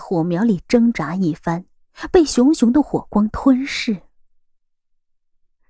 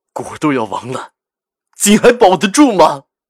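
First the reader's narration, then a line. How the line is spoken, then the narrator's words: Low, trembling, halting. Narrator (Chinese): 赵世南的声音是沉沉的微颤 半晌才艰难的说了几个字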